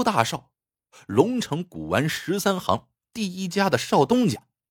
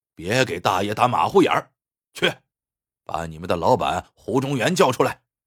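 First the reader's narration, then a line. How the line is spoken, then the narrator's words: Loud angry roar. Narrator (Chinese): 侯大少……大声吼道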